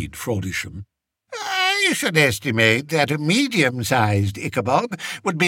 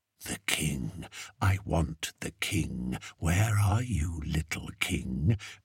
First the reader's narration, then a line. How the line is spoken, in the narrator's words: asked Fred, in whose nightmares the monster whispered